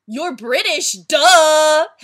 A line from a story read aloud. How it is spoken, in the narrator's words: Heaven exclaimed loudly